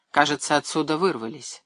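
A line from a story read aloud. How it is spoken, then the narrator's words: Calm remark. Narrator (Russian): спокойно заметил Чернышов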